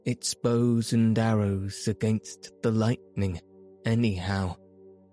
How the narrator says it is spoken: said the artilleryman

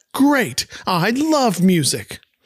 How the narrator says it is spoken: Peter yells back

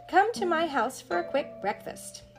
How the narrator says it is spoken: cried Jack Rabbit

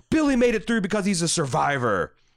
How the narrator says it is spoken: she angrily retorts back

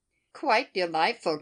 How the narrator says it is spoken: cried Mrs

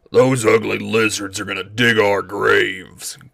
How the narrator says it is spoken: growled my father

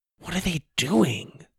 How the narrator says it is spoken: Sawyer whispered

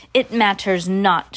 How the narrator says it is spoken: shouted the Grand High Witch

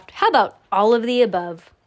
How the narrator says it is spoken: Sam chuckled

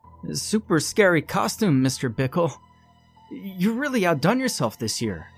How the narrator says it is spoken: One kid made up to look like a hamburger yelled out

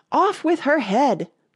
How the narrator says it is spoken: the queen shouted at the top of her voice

